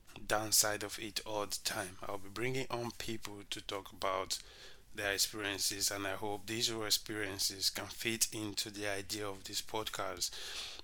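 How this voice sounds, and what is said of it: Sick-sounding, poor-quality voice. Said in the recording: “sorry about my voice. I've been really, really sick ... this horrible voice”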